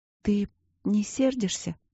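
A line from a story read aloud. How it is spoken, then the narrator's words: Quiet plaintive question. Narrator (Russian): спросила она тихо и жалобно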